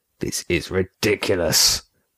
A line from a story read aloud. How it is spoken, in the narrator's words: Remy growled